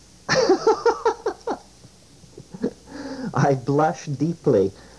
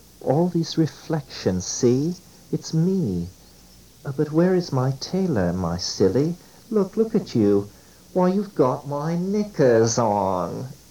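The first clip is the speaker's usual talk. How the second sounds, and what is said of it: Strong English accent. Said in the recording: “This in a strong English accent.”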